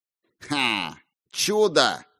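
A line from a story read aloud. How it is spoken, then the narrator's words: Snorting scoff. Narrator (Russian): хмыкнул каноник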